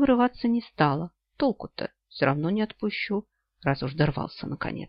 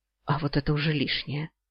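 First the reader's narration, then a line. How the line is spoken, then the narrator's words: Hoarse, out of breath. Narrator (Russian): сипло проговорила она, запаленно дыша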